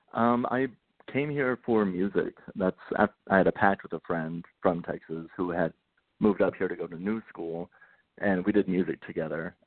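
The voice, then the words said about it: Clean standard American English accent. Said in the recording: “you really have a standard English. It's a very clean, very beautiful. So I don't think you have any accent that can identify with anything. It's just you definitely sound American.”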